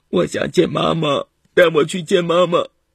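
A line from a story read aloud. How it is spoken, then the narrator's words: Crying plea. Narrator (Chinese): 小雨哭着求爸爸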